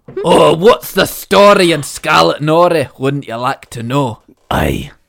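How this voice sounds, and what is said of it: Put-on Scottish accent. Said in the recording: “Where is the Scottish accent?”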